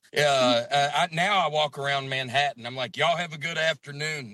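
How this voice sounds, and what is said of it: Southern American accent. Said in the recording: “my accent ... Southern accents”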